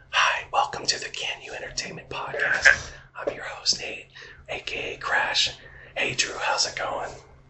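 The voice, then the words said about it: Very low, quiet ASMR-style voice. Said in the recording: “We're talking in this very low voice today. I know you can barely hear us”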